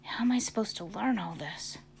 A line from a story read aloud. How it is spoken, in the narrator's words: Caden whispered